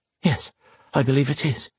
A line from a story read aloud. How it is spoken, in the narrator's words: she answered breathlessly